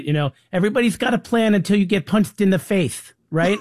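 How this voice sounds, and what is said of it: Bad Mike Tyson impression. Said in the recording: “Like you said, Mike Tyson ... It was my terrible impression.”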